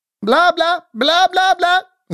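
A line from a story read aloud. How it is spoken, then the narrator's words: Loud shout near ear. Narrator (Russian): Закричал мальчик, и его громкий голос над ухом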